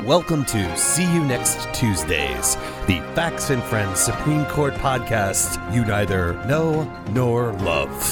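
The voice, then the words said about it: Polished professional radio announcer voice. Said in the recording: “A lot more professional that time... You got your old radio voice on.”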